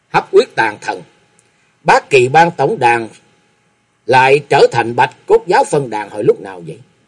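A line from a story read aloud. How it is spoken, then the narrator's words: Cold voice. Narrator (Vietnamese): giọng lạnh lùng hướng về phía cổ sâm nói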